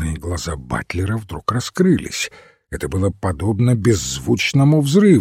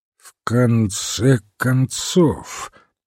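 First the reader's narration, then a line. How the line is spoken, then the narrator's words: Slow repetition. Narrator (Russian): медленно повторил он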